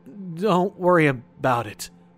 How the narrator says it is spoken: all I could stammer out was

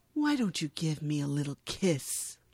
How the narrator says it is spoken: He whispers

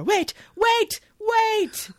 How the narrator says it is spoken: yells

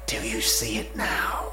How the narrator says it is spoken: the voice whispered, echoing from every mirror

